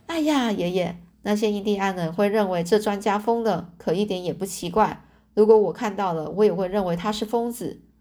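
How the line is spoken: Hearty laughter. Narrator (Chinese): 我呢，就哈哈大笑的说

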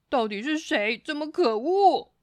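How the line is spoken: Exasperated roar. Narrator (Chinese): 他实在烦死了，忍不住大吼

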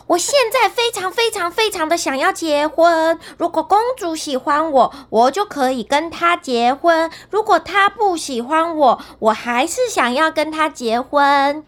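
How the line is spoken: Loud. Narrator (Chinese): 笨蛋汉斯大声地说

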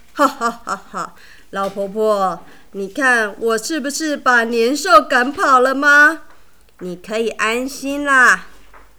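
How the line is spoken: Old man laughing loudly. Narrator (Chinese): 老乞丐这时大笑地说

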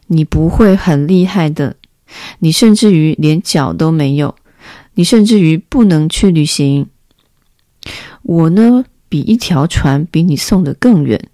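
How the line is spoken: Laughing. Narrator (Chinese): 小王子不禁笑了起来

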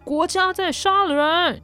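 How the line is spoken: Shouting. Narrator (Chinese): 黄老师的喊叫

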